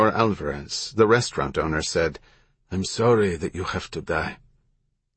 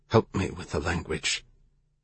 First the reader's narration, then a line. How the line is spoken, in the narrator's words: He whispered to Remy